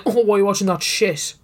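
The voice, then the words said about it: Put-on accent imitating someone. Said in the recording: “I don't know why I did that accent. That's not Tom.”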